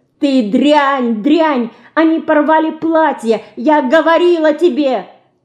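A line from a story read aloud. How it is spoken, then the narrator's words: Screaming, foot-stamping tantrum. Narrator (Russian): Топая ногами, кричала Динка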